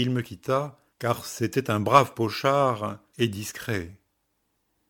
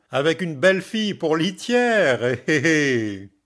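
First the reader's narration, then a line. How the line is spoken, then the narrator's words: Sneering. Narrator (French): fit l'ami en ricanant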